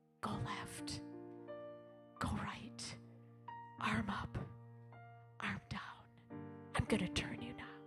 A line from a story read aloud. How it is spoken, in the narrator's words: he whispered in my ear